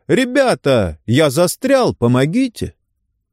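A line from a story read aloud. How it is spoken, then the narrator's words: Sudden panicked yell. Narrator (Russian): Джорди вдруг заорал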